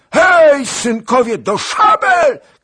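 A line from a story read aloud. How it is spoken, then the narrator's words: Princess shouting. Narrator (Polish): krzyknęła kniahini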